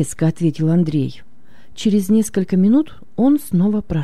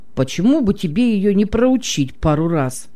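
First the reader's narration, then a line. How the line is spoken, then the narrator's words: Angry grumble. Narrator (Russian): проворчал готовый ударить корову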